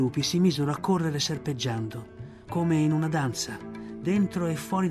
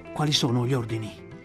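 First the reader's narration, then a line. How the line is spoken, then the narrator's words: Breathless question. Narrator (Italian): chiese Akela ansimando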